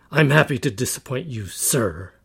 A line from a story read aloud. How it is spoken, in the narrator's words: I spat the last word through gritted teeth